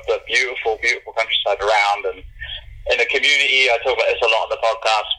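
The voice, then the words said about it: English accent. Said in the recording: “from your accent, you're obviously from another part of the world ... from Bath, England”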